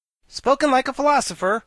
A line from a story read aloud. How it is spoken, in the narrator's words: cried the Wogglebug